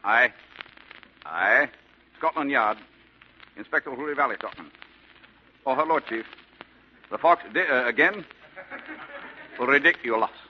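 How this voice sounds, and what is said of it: Put-on British Scotland Yard accent. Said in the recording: “Why am I talking with this accent? Well, this is Scotland Yard, isn't it?”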